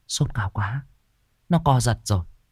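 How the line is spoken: Worried muttering. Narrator (Vietnamese): bà lẩm bẩm

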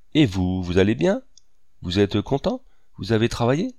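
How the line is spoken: Plain question. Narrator (French): demanda Fouvarque

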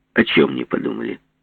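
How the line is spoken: Calm question. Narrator (Russian): спросил Жеглов спокойно

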